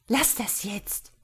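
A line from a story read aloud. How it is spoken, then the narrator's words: Angry hiss. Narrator (German): fauchte Rena Manfred an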